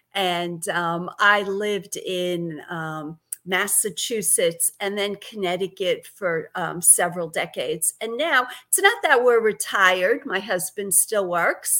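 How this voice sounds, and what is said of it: Brooklyn New York accent. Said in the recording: “You sound like a New York Brooklyn. ... I can never get rid of this Brooklyn accent.”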